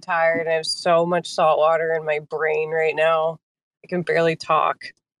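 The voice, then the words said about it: Slightly nasal, slurred-sounding voice. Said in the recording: “do I sound nasally? ... Sound a little like a little drunk”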